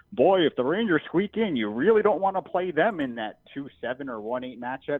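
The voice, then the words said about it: Impression of a sports TV pundit. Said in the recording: “That was, like, a good impression, by the way.”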